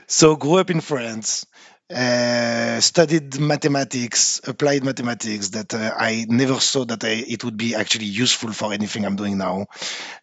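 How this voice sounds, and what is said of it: French accent. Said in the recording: “I'm French. I don't think I can hide it, right, with my accent.”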